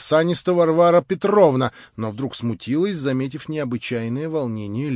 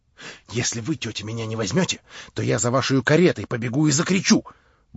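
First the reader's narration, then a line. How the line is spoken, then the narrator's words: Fast desperate whisper. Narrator (Russian): Быстро и отчаянно прошептала она совсем на ухо Варваре Петровне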